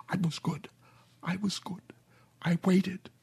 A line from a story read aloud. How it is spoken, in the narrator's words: Her mouth was all broken, so she could only whisper